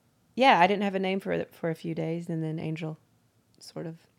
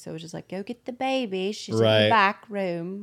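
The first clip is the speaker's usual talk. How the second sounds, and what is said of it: Put-on English accent. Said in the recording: “I go into the English accent mode”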